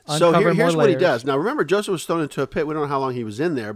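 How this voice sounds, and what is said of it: Talking really fast. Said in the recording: “I'm talking really fast, it's because I've had coffee.”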